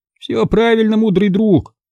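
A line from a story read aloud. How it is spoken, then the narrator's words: Sad agreement. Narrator (Russian): печально согласился Чоли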